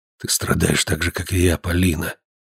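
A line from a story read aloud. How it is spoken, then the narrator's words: Whispering. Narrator (Russian): продолжал шептать Лазар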